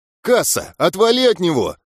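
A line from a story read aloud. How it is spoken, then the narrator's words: Yelling. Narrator (Russian): заорал я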